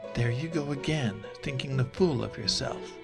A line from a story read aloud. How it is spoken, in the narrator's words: Raven breathed